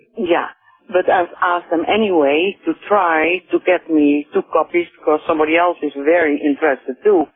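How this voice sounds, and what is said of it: Dutch accent. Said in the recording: “I hear an accent in you ... From Holland”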